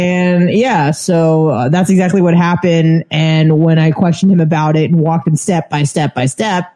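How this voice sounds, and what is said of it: Usual voice. Nothing is said of it.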